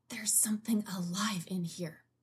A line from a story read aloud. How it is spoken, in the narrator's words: she hisses